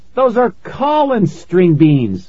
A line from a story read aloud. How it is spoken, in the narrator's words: I cried